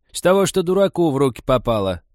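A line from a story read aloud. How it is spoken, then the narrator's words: Loud, categorical old woman. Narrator (Russian): так громко и категорично объявила старуха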